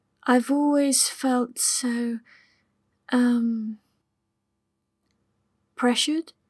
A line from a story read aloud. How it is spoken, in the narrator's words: suggested gently